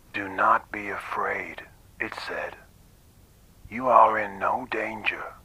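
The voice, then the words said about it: Flat monotone machine-like voice. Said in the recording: “There was no accent, no intonation or inflection in those words. They were just delivered in an unemotional, monotonous way. ... almost machine-like.”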